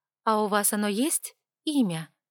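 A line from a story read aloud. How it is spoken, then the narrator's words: Plain question. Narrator (Russian): спросила я обоих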